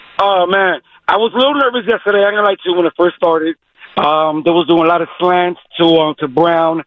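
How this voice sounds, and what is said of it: Messed-up, strained voice. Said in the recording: “my voice is all messed up. I was screaming yesterday.”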